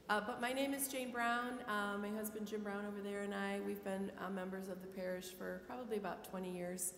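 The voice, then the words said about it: Sick-sounding voice. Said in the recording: “I apologize a little bit for my voice. I have a cold and end of a cold.”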